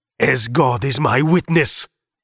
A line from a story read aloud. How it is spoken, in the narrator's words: he shouted